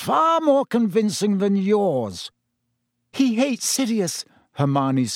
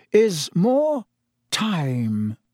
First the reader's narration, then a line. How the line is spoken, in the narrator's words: said Dumbledore slowly